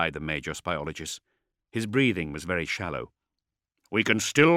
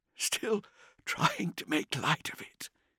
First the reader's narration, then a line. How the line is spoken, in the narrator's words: He asked weakly